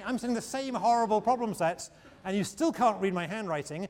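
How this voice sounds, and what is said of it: Speaker's own noticeable accent. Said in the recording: “you still got to deal with my accent... deal with my accent”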